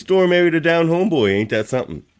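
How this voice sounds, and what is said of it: Put-on Nova Scotian accent. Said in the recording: “accent ... I threw my Nova Scotian ain't that something on”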